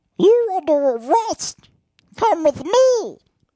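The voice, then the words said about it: Squeaky high-pitched helium voice. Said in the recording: “inhaled some of the helium of those balloons ... That's a great helium voice.”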